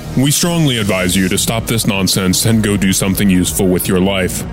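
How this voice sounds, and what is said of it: Very deep announcer voice. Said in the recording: “Deep Voice Man”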